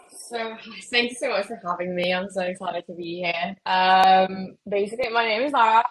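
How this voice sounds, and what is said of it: British-sounding accent. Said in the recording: “So if anyone gets confused at my accent, is because I'm actually Mexican, but just pretend I just catfish to be British 24/7.”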